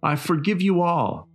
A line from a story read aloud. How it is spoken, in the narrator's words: Martin cried